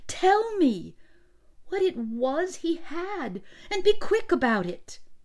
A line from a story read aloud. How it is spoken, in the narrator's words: cried, unable to bear the suspense any longer